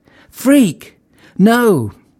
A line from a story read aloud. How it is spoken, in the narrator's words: Deke screamed